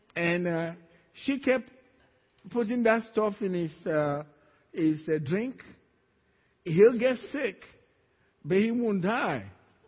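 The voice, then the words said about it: Speaks with an accent. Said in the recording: “It's my accent.”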